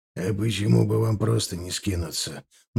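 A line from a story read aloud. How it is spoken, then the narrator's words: Gloomy question. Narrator (Russian): мрачно спросил Михалыч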